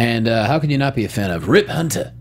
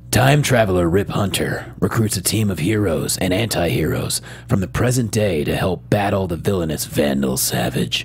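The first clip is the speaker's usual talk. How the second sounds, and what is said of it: Dramatic movie trailer voice. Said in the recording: “I'll do it in my movie trailer voice.”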